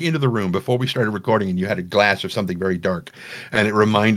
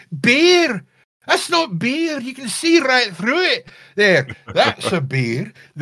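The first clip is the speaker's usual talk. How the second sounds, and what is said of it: Speaks in an imitated accent. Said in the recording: “I like that accent. I'm stealing that.”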